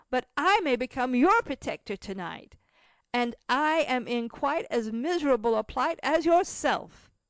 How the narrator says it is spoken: said Cecil, laughing and jumping about for joy

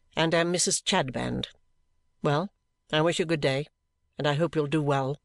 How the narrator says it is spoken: she returned, coldly correcting me

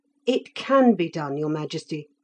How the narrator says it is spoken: cried Felix, alarmed

